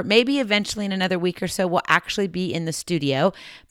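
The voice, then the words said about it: Hoarse voice. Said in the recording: “I'm still trying to recover from my hoarse voice”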